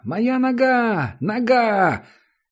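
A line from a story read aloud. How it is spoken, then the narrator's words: Distant high-pitched scream. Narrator (Russian): Кто-то далеко внизу закричал тонким голосом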